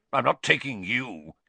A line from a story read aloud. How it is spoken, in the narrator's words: he snarled